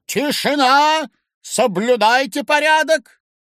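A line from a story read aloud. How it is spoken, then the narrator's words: Shout. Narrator (Russian): крикнул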